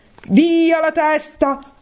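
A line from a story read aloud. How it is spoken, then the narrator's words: Shout. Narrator (Italian): gridò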